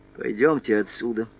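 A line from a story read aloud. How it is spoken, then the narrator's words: Quiet. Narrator (Russian): Негромко обратился к Селезневу Умберто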